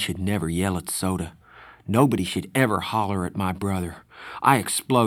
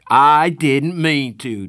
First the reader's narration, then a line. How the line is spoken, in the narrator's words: Darry shouted